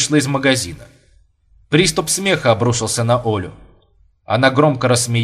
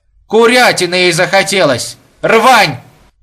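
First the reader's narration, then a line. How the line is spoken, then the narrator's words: Loud woman's voice. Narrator (Russian): Женщина громко произнесла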